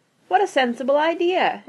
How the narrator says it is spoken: exclaimed Mrs

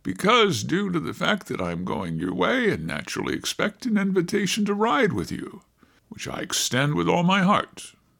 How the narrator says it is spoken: he added with a slight laugh

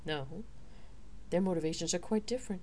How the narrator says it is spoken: the warrior quipped

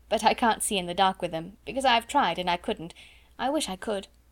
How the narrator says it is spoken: laughed Sarah

